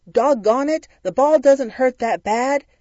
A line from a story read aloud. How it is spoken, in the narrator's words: a coach who got so upset about my fear, yelled